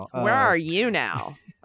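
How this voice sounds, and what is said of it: Imitates another person's voice. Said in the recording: “That's a really good Melissa Carone impersonation.”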